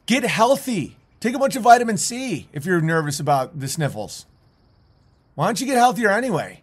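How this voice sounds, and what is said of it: Yelling. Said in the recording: “I know I'm yelling. I'm yelling again”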